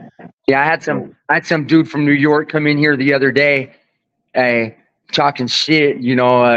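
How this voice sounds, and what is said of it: Usual voice. Nothing is said of it.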